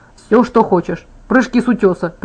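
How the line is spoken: Laughing. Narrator (Russian): предложил он, вновь рассмеявшись

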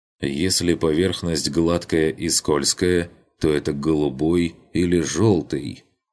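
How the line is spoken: Sighing lazy drawl. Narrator (Russian): Вздохнув, лениво протянул он

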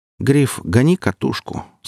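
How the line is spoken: Calm and clear. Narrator (Russian): сказал спокойно и четко

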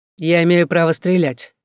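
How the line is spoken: Cold. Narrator (Russian): заметил холодно

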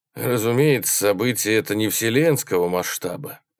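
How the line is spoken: Sighing. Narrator (Russian): вздохнул Келлер

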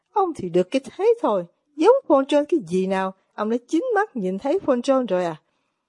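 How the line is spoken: Sudden exclamation. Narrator (Vietnamese): Fyodor Pavlovich bỗng thốt lên

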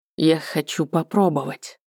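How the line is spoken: Grumbled under breath. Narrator (Russian): проворчал нечто странное себе под нос валариец

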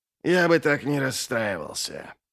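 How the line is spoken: Sigh. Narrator (Russian): Глок-то вздохнул

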